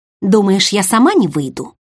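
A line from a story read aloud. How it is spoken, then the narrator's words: Angry snapping retort. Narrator (Russian): Зло огрызнулось в ответ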